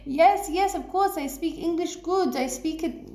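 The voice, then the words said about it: Deliberately bad Israeli English accent. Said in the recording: “That's a really bad accent.”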